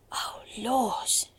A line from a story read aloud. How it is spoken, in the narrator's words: she gasped